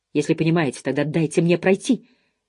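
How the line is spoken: Sharp. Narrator (Russian): резко сказала она

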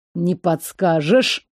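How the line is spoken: Growled. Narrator (Russian): прорычал парень

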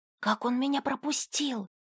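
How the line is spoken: Surprised whisper. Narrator (Russian): шепотом удивилась Арисия

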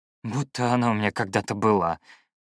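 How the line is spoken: Grumbling. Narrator (Russian): буркнул я

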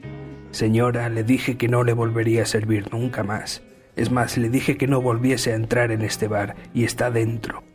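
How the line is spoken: Plain. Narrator (Spanish): dijo el camarero

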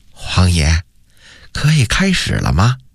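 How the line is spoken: Soft whispered question. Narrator (Chinese): 他于是凑到永乐帝的耳边轻声问道

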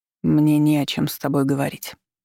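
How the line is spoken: Dull flat voice. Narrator (Russian): отозвался тусклым голосом

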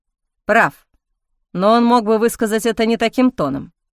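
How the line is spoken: Through gritted teeth. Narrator (Russian): процедил чародей

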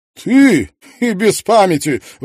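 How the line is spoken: Exclaimed. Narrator (Russian): воскликнула она

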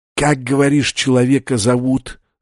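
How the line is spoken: Hissed close into ear. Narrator (Russian): снова прошипели ему в ухо

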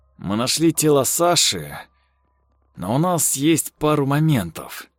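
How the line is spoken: Calm policeman. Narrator (Russian): спокойным тоном сказал милиционер

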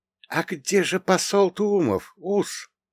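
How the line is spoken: Near-whisper, pregnant woman. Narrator (Russian): Беременная Робинсон тихо, почти шепотом произнесла

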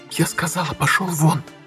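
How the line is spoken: Distinct whisper. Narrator (Russian): Отчетливо прошептала Инга

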